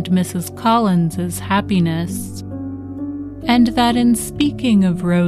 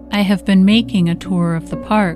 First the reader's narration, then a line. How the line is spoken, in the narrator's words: he replied